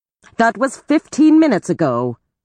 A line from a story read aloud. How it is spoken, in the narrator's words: she snapped